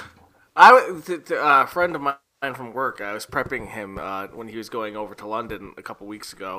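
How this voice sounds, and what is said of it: Usual voice. Nothing is said of it.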